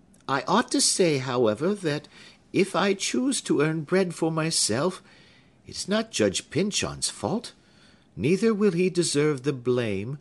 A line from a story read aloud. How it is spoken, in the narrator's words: added she more kindly